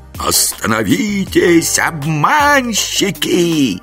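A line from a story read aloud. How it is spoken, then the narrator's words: Shrill huntress voice echoing. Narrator (Russian): Визгливый голос дикой охотницы заметался под сводами рачьей пещеры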